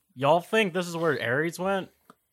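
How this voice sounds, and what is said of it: Imitates another person's redneck accent. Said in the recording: “copying Pierce's accent ... a weird redneck”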